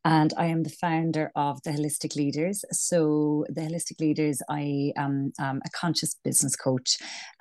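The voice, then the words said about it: Irish accent. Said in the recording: “I'm Irish, as you can probably tell from my accent.”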